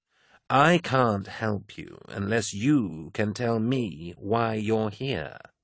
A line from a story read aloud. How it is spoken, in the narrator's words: said Carcassi, speaking slowly to ensure that the man understood